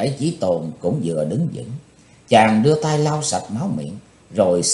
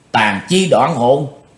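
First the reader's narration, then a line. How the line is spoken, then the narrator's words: Involuntary startled cry. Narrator (Vietnamese): Bất giác bắt độc lão ma kêu lên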